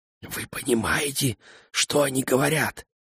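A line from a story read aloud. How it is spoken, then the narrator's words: Whispered question. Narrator (Russian): шепотом спросила Роксана Гена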